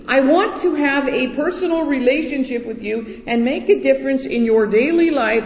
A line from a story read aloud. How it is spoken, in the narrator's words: screaming